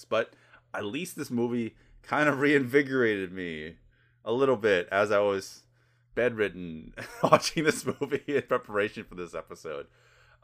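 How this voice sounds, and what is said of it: Voice sounds sick, recovering from illness. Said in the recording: “I am recovering from something, so you can definitely hear it in my voice.”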